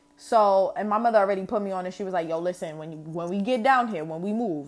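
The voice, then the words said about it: New York accent. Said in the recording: “obviously you know I'm from New York, you hear it in my voice”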